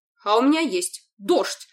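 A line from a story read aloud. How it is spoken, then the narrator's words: Barked. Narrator (Russian): рявкнул Энрон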